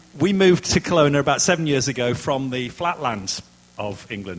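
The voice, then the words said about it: Yorkshire English accent. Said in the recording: “that is a funny accent you can hear... Another strange accent... I'm from Yorkshire”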